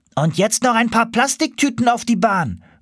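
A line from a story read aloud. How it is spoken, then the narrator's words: Called out. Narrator (German): rief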